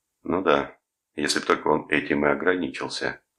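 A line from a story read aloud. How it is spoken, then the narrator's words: Gloomy remark. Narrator (Russian): мрачно бросил Рудольф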